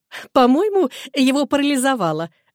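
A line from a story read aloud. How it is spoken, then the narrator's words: Laughing. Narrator (Russian): рассмеялась миссис Мерриман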